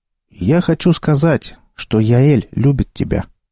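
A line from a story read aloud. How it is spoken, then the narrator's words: Calm explanation. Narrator (Russian): спокойно пояснил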